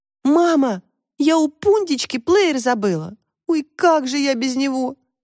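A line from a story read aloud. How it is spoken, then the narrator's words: Sorrowful exclamation. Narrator (Russian): горестно воскликнула Таська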